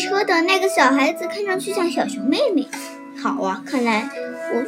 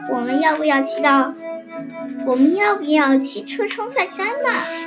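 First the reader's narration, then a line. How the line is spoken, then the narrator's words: Plain. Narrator (Chinese): 米兰达问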